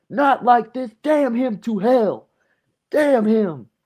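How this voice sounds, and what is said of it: Screamed imitation of another person's voice. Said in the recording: “Shannon Sharpe screaming ... your Shannon Sharpe impression”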